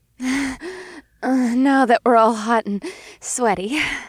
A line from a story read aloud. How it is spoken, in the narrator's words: she panted